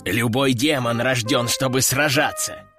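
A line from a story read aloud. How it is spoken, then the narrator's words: Growl from behind. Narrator (Russian): прорычал Рэмбо за моей спиной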